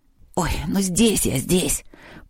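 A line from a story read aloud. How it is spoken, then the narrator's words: Hoarse voice from shelf. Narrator (Russian): послышался хриплый голос с книжной полки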